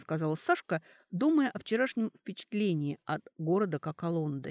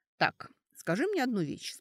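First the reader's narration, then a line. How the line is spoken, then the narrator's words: Calm. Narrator (Russian): спокойно сказала Сашка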